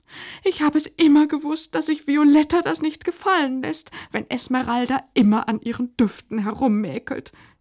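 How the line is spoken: Continued whining. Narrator (German): jammerte Pelanda weiter

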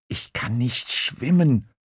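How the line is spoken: Whisper. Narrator (German): flüsterte Murmeltier

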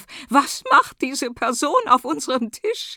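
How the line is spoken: Woman shrieking, drowned by music. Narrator (German): Ihr Kreischen geht in der Musik unter

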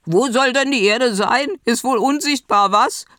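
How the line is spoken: Mocking. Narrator (German): spottete

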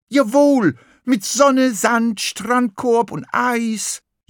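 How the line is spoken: Excited jubilant cheering. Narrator (German): jubelte Lachmöwe und schlug aufgeregt mit den Flügeln

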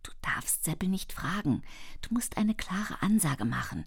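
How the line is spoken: Whispered. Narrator (German): flüsterte mir Jelis zu

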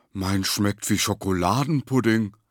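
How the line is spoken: Enthusiastic call. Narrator (German): rief der Lange begeistert

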